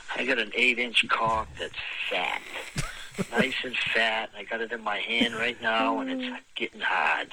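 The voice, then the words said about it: Strong Massachusetts accent. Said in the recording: “This guy has the best Massachusetts accent.”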